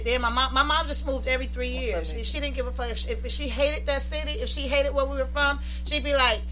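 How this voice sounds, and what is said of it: Brooklyn New York accent. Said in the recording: “Brooklyn, New York. She holding on to that accent for dear life.”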